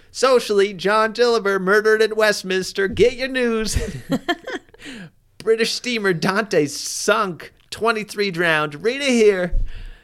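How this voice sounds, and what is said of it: Yelling newsboy street-hawker voice. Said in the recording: “I don't have a good New York accent ... it's a perfect newsy voice ... you're yelling things in the yard ... that's a really good newsy voice”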